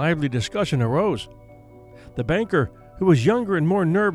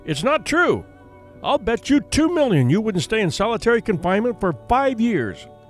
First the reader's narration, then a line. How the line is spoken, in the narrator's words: shouted at the young man